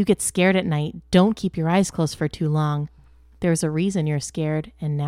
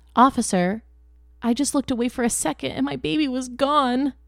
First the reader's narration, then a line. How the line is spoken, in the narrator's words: I sobbed helplessly